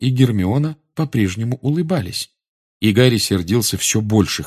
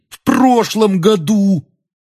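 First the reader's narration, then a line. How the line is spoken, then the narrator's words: Nearly shouting. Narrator (Russian): Рон почти кричал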